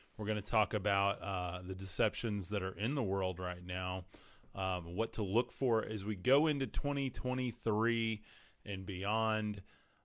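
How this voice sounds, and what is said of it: Strained, fading hoarse voice. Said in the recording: “I'm losing my voice today, so you guys bear with me.”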